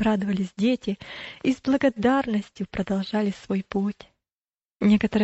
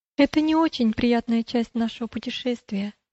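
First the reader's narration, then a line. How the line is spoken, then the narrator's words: Plain. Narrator (Russian): сказала Милость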